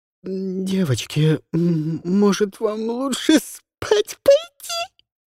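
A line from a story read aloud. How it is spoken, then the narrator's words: Squeaked, choking with laughter. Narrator (Russian): Каролина пропищала последние слова, начиная давиться от новой волны подступившего смеха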